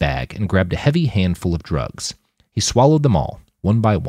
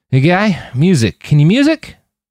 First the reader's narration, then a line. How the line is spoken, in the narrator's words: Roland realized he was slurring, and his words were not coming out the way he'd intended